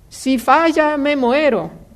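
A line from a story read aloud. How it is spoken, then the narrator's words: Crying shout. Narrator (Spanish): El otro le gritó llorando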